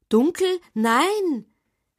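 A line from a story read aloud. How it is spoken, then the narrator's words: Calling out. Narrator (German): rief Simon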